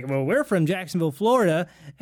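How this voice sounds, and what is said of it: Put-on regional accent. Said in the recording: “This is where I put on my accent because I'm like, I know my audience. I need to pander.”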